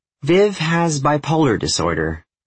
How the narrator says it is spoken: her mom said

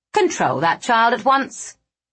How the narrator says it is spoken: our headmaster snapped

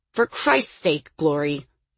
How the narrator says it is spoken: he snarled

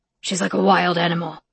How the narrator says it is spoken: Rome muttered

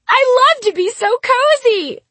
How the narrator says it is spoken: I shrieked

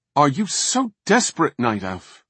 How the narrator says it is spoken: He snapped

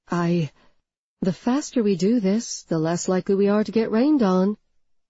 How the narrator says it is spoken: she said, her voice firm and friendly

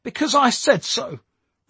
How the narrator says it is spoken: replied Tommy angrily

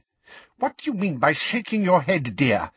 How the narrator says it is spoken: said Umbridge in a testy voice

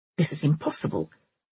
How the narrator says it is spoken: Rowell muttered

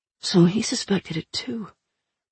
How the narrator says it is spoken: Lick murmured

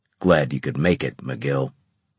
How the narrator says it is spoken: Veteran Harris rumbled at me

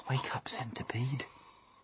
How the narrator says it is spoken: whispered James

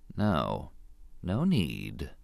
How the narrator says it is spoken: he said softly

